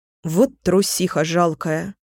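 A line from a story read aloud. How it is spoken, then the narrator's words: Angry. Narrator (Russian): сердито нахмурилась Фэй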